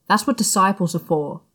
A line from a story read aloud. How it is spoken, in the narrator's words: he snapped